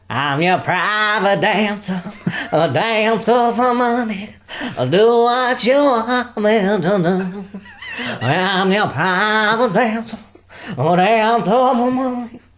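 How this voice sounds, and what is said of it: Imitates another person's singing voice. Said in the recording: “my Tina Turner impression ... It's like she's in the room.”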